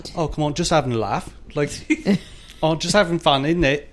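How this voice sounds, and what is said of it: Good put-on accent. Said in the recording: “that's a really good accent.”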